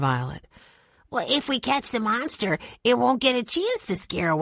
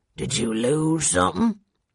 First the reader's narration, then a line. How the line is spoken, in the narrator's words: He growled